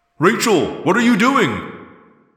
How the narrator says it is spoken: Jake yelled

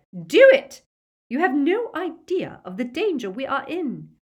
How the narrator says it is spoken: shrieked Bellatrix

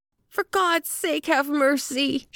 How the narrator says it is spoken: she shrieked

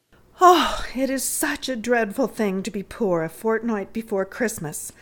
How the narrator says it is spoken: said Clorinda, with the mournful sigh of 17 years

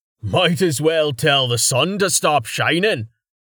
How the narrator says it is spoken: Carten said loudly, laughing

